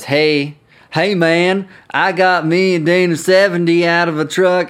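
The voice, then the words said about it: Poor put-on Arkansas accent. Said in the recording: “I do a terrible Arkansas accent.”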